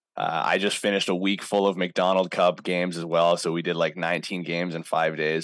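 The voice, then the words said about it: Tired, strained voice. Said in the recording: “my voice is, I'm feeling it right now. I'm chugging tea.”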